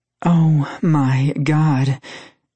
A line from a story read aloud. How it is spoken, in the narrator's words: she began panting